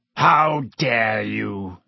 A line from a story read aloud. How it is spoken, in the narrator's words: he growled, sounding suddenly like the bear-sized dog he had been